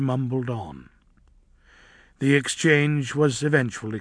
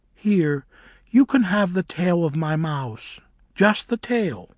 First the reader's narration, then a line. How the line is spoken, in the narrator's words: said Noor kindly